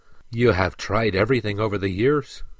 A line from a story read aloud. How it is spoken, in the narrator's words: sighed the prince